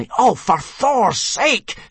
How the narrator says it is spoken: snapped Hiccup

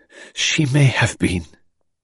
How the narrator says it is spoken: said brokenly

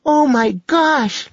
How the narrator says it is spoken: Lacey cried

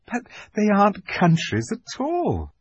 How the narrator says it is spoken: said Lucy, almost laughing

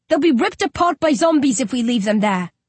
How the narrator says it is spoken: I shout

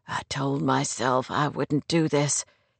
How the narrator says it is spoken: he whispered huskily

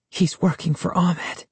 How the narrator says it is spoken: she whispered

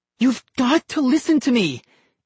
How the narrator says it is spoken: Ian cried

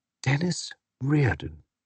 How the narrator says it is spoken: said in a faraway voice

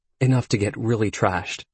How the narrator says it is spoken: Excitedly, he kept repeating

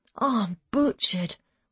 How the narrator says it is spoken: Wayne said, yawning again

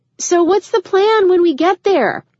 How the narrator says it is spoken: Iona yelled back to her

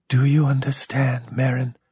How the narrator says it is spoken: whispered

